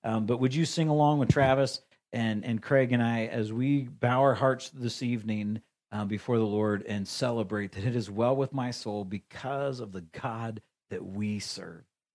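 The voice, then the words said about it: Slightly scratchy, hoarse voice. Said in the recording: “My voice is getting a little scratchy.”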